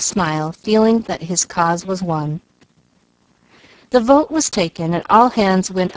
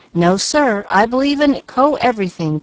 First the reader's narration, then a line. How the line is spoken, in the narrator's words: cried Chick, a mild youth